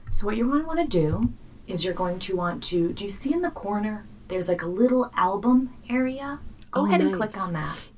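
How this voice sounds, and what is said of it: Calm customer service voice. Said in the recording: “customer service voice ... You're super calm”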